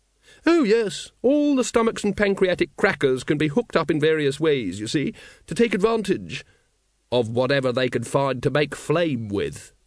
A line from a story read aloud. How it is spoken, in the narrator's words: said Vimes